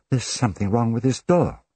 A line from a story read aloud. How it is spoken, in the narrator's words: she exclaimed